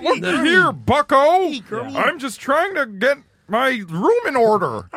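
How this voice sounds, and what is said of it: Kermit the Frog-like impression voice. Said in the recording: “I just did a bad impression. ... Yeah, you just do Kermit the Frog. ... That's Kermit the Frog. ... People say he's Kermit”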